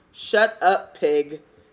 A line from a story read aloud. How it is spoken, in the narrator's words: said Ron